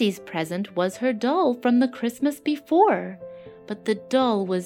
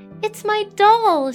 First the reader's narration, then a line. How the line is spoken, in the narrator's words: cried